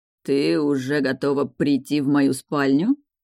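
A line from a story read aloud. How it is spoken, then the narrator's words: Insinuating purr. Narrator (Russian): вкрадчиво мурлыкнул Джахар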